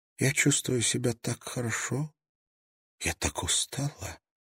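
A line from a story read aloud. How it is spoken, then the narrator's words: Barely audible. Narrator (Russian): произнесла она чуть слышно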